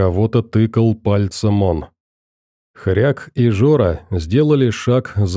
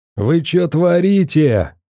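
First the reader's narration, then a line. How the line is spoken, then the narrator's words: Loud shout. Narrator (Russian): громко крикнул кто-то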